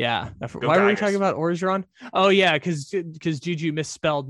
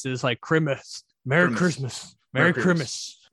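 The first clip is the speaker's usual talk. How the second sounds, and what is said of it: Imitates another person's voice. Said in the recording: “Ed Orgeron says Christmas”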